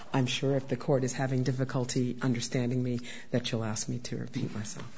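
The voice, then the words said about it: Hoarse, strained voice. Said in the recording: “I'm recovering from both bronchitis and laryngitis.”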